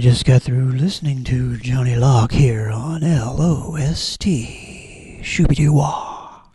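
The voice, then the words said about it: Radio DJ voice. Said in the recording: “That was your DJ voice?”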